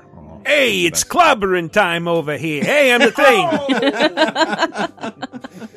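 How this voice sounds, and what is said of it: Gruff New York character voice. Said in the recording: “the quintessential New York accent ... This accent's fun to do.”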